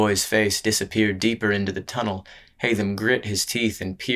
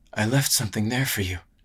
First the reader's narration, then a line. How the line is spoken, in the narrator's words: the boy muttered